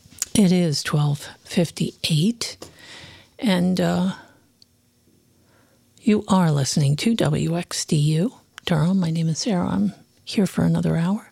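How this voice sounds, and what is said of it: Hoarse voice. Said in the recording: “I don't know why I'm so hoarse this morning.”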